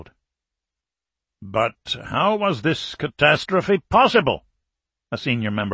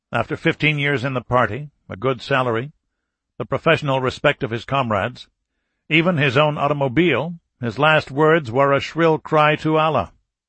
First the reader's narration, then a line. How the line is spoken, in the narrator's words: Sergeyev said dryly